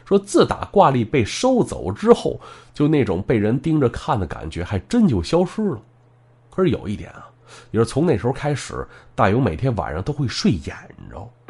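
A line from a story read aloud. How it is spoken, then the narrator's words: Laughing. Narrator (Chinese): 大勇笑着说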